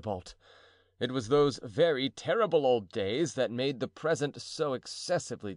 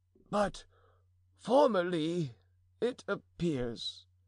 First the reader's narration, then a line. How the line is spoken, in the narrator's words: began Mousqueton timidly